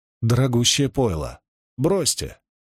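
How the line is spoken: Snort. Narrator (Russian): Гуга фыркнул

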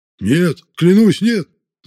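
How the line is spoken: Shouting. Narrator (Russian): закричал Садовский

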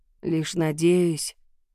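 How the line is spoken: Muffled, holding back emotion. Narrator (Russian): глухо произнесла она, борясь с глубокими чувствами

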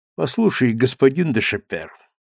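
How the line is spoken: Cold interruption. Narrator (Russian): холодно перебил царевич

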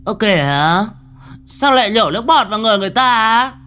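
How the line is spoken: Shrill shriek. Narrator (Vietnamese): con Lan BD nó kêu rú lên

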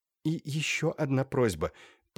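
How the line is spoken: Whispered. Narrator (Russian): прошептала Юлия

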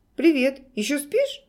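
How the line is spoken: Cheerful voice. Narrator (Russian): бодрым голосом человека, которому не пришлось только что вырываться из власти кошмара, спросил Олег

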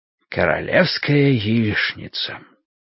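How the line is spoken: Mysterious whisper. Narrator (Russian): загадочным шепотом говорит он

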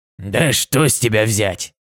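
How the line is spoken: Grumbling. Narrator (Russian): проворчал Земнопони

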